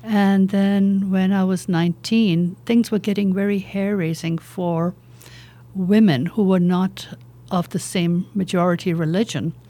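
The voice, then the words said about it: British-Irish accent, slight Indian trace. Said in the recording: “You can probably detect a bit of an accent. ... So that's why we hear the British accent. ... As I lost the Indian accent, it became a little more British and a little more Irish.”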